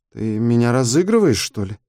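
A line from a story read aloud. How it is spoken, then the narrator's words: Uncertain question. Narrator (Russian): неуверенно спросила Светка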